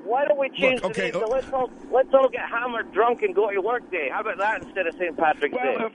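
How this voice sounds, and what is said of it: Scottish accent. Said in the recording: “you've got that accent ... I'm Scottish ... knock it off with your accent”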